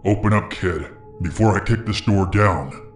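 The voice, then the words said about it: Deep threatening male voice. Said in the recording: “deep voice”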